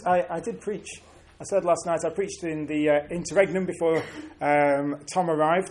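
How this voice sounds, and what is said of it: Northern English accent. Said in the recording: “I am from the north. ... It brings with it an accent.”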